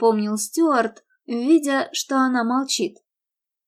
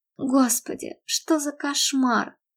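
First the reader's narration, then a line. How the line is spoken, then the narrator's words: Weak mumble. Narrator (Russian): слабо пробормотала Мередит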